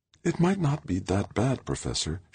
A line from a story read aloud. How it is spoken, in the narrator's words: she said, her voice soft, tender